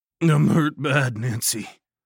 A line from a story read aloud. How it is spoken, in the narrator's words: I groaned